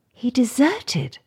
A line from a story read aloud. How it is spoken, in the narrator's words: gasped Cathy